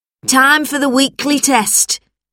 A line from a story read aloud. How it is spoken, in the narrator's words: shouted Mrs